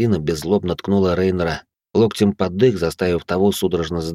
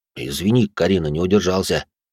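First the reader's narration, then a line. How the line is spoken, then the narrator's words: Guilty mutter. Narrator (Russian): Виновато пробормотал Рейнер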